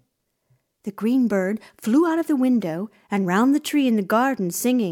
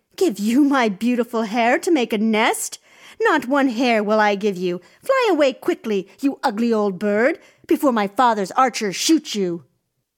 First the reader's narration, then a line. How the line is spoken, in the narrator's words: The princess cried in dismay